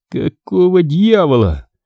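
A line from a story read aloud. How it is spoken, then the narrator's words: Breathless exhale. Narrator (Russian): выдохнул он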